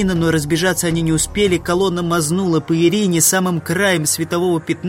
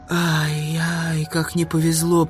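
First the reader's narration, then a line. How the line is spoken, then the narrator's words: Girl's whisper. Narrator (Russian): прошептала девушка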